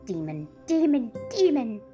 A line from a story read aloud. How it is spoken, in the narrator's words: shrieked the prince